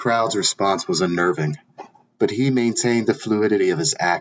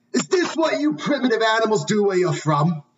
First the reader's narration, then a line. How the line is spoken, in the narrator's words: Horrified by the act, a heckler shouted